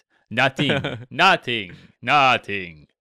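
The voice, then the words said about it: Bad put-on French accent, Dracula-like. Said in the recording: “a really bad French accent ... That sounds like Dracula ... his French sounds like Transylvanian”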